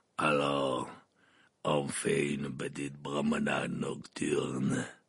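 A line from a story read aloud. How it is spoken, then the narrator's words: Growled. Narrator (French): grogna-t-il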